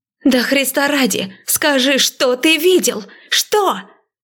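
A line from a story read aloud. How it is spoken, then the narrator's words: Angry, hurt shout. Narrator (Russian): Со злостью и обидой прокричала она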